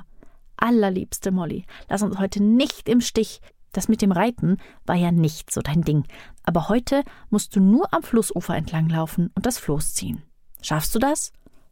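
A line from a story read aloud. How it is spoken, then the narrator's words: Whispered into ear. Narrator (German): Otieno flüsterte ihr dabei ins Ohr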